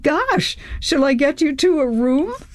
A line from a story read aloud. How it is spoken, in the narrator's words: Chris laughed